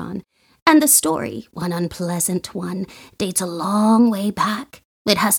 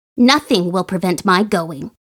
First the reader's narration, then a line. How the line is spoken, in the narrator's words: she said firmly